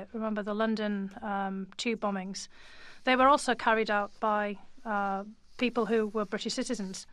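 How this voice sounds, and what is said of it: British accent. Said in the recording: “as you can tell from my accent, I'm originally from the UK”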